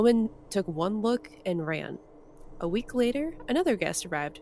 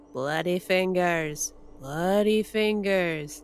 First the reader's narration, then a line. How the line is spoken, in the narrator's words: It was still moaning